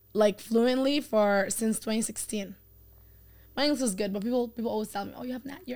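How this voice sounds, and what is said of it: Non-native English accent. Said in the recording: “accent's so cute ... I have an accent”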